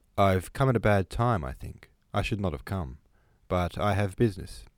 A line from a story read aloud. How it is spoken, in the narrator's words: he said coldly